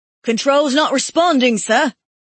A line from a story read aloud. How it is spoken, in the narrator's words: the quartermaster shouted